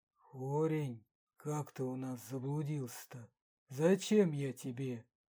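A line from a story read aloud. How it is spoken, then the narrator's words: Fervent whisper. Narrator (Russian): горячо зашептал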